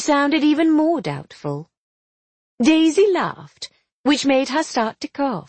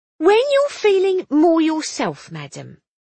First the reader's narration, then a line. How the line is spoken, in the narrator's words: she said firmly